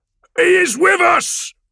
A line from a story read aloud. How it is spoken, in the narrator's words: Ran roars